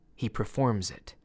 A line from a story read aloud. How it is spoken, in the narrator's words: Lara gently corrected me